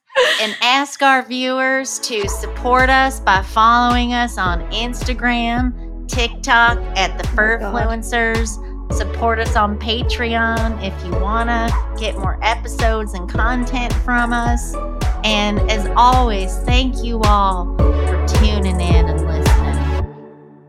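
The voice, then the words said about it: Put-on Southern accent. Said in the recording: “I'm going to close this out with a Southern accent.”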